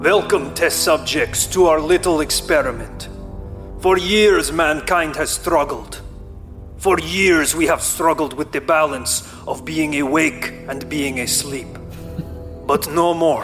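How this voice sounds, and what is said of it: Low put-on Russian accent. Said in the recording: “I'm having to do a low Russian accent.”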